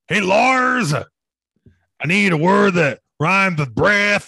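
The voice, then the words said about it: Imitates another person's voice. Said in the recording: “Here's my imitation of Metallica writing the song.”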